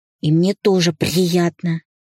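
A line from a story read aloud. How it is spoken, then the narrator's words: Effortful growl. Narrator (Russian): старательно рычал Иван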